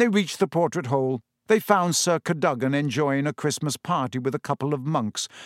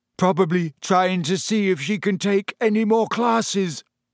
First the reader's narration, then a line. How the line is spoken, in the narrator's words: yawned Ron